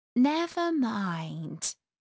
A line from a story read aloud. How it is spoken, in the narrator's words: Alice said in a soothing tone